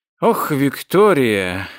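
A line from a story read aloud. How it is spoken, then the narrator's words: Reproachful mutter. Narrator (Russian): укоризненно пробормотал он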